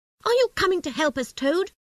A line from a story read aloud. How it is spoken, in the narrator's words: he asked crossly